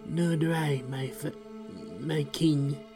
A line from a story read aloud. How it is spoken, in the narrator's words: the other man says with a rasp